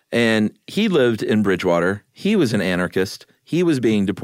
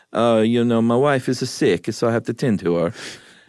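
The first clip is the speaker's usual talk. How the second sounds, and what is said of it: Put-on Italian accent. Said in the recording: “Everybody loves your Italian accent. ... Because I'm just doing the accent.”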